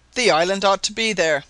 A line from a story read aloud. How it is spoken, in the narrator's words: cried Sabine